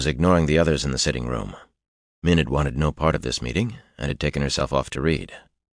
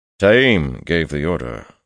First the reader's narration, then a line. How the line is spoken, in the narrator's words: Loghain said, coldly uncomfortable explaining himself in front of an audience